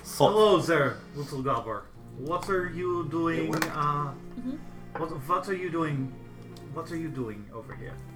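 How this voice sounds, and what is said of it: Put-on fantasy accent. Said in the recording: “Let me get my Cadoran accent going.”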